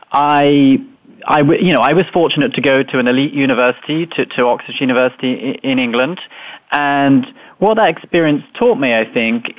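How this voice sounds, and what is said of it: English accent from near London. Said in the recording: “as you might tell from my accent, I grew up in England, just outside London”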